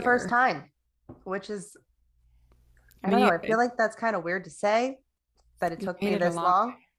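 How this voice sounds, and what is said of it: Voice not quite its usual self. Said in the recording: “My voice is not quite what it is because I got COVID”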